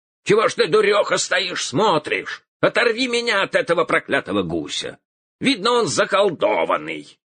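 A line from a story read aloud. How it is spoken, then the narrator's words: Shouting. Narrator (Russian): Закричал он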